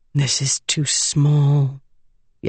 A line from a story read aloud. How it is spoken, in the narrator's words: Jasnah mumbled